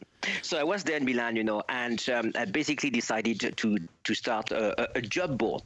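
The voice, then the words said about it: French-Italian accented English. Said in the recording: “My accent doesn't give it up, you know, but I'm half French, half Italian.”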